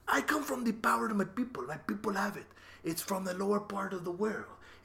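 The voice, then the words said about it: Weird put-on Latin accent. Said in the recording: “You said Latin, you have this weird accent”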